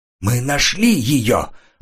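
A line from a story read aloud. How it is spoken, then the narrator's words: Excited voice. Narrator (Russian): Взволнованным голосом сообщил Реник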